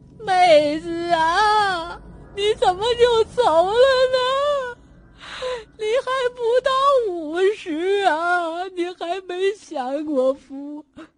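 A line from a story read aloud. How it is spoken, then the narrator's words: Old woman wailing. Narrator (Chinese): 外面传来一个老太太的哭声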